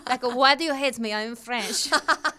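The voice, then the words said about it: Put-on French accent. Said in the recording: “That's my really good French accent... It's also the same as my Russian and German accent.”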